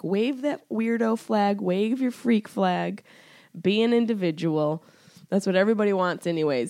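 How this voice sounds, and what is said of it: Slightly congested voice. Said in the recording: “I'm almost completely out of this cold thing that you guys can probably hear it in my voice. I'm still a little congested.”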